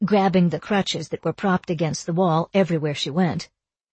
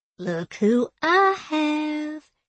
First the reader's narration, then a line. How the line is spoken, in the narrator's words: cooed in baby talk